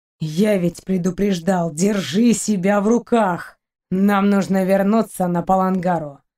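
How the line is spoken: Grim. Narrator (Russian): мрачно пояснил Шейн

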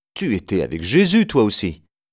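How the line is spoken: Servant girl exclaiming. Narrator (French): Une servante s'exclame

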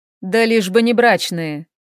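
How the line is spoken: Mocking. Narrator (Russian): Хел насмешливо произнес

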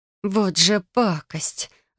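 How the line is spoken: Exhaling. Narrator (Russian): выдохнула

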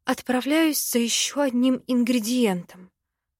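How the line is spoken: Whispered. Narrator (Russian): прошептала

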